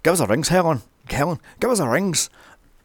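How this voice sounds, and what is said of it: Poor Irish accent mimicking Justin Theroux. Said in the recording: “Justin Theroux's Irish accent is piss bloody well poor”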